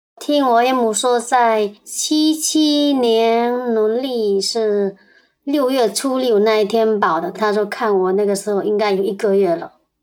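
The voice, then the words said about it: Heavy Fujian accent, altered voice. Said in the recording (Chinese): “我们也对讲述人的声音做了变声处理。另外，讲述人的福建口音比较重”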